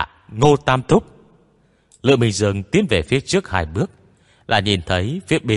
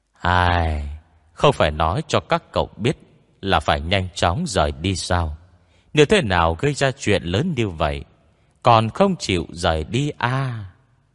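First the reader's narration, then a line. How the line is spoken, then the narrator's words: Sighing mutter. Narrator (Vietnamese): Ngô Tam Thúc thở dài, tựa hồ lẩm bẩm nói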